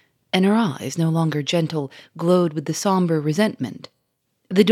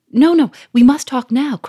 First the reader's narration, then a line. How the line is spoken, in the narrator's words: cried Sonia